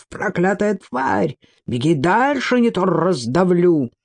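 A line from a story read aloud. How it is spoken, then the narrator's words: Growling player. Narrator (Russian): зарычал один из игроков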